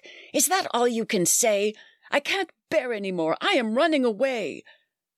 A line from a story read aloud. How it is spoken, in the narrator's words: Young Toby screamed back